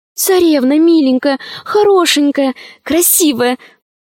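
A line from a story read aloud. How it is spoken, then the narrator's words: Pleading. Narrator (Russian): взмолилась Алиса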